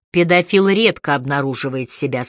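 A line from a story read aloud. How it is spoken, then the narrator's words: Plain. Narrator (Russian): сказал Лёкин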